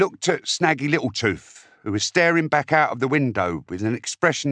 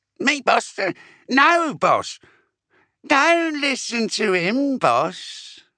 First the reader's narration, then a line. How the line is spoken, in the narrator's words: a new voice piped up